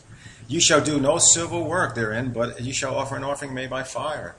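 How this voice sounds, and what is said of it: New York accent. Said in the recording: “I speak Hebrew with my New York accent.”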